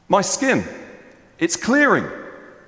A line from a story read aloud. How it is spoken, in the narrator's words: One person called out